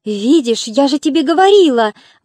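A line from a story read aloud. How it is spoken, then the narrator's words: Exclaim. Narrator (Russian): воскликнула Ладика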